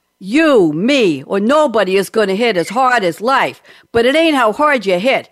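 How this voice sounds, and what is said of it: Imitates another person's voice. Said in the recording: “in my best Stallone voice”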